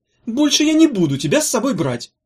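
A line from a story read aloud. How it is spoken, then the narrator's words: Angry. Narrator (Russian): сказала она сердито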